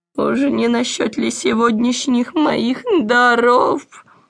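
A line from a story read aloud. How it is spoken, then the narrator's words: Wary question. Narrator (Russian): опасливо осведомился Хоттабыч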